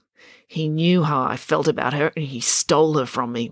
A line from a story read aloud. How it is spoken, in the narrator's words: muttered Finn